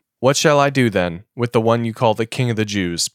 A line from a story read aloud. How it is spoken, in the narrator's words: Pilate asked them